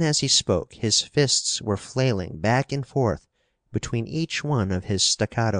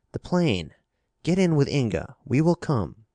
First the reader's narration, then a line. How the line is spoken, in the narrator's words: he exclaimed